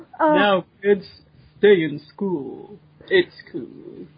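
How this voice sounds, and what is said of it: Exaggerated low Morgan Freeman impression. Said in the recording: “I've been Morgan Freeman ... It just sounds like you're just putting on a really low voice ... You're not even trying with the Morgan Freeman now”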